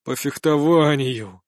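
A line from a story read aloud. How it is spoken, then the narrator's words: Dejected tone. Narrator (Russian): ответил уже поникшим тоном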